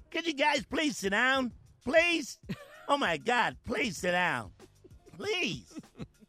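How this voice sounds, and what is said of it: Put-on white guy voice. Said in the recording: “you got to do it in your white guy voice”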